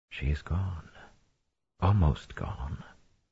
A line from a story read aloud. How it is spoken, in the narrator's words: Luz Theron whispered